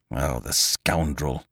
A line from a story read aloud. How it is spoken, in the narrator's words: muttered Lupin